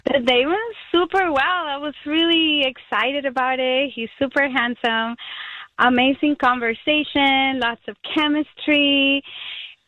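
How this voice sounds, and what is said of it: Puerto Rican Spanish accent. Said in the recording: “Me encanta su acento. I love your accent. ... I'm from Puerto Rico.”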